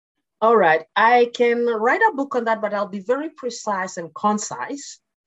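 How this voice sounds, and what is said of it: Kenyan English accent. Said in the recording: “As you can hear from the accent, it's not Canadian. I was born and brought up in Kenya”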